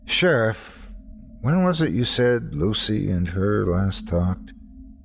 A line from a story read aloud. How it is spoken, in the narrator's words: asked wearily